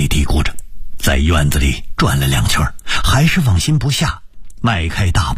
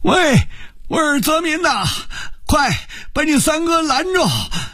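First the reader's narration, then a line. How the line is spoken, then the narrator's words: Shouting. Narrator (Chinese): 王四爷半躺在床上高喊着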